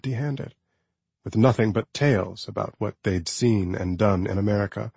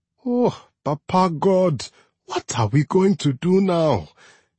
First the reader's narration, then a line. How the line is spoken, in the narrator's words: She cried, ignoring his plea